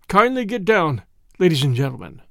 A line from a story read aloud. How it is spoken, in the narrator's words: In Alsatian French, he requested the travelers to alight, saying stiffly